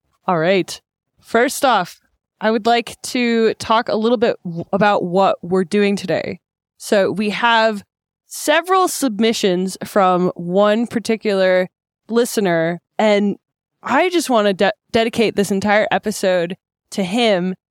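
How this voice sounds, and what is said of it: American accent. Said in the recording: “with the lovely American accent”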